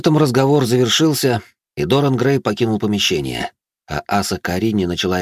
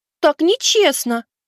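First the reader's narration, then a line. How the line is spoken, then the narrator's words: Squeaked. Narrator (Russian): пискнула из-за компьютера Светка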